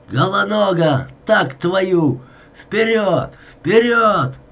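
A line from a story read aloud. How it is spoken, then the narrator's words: Hoarse, strained shout. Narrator (Russian): Климченко закричал сорванным, осипшим голосом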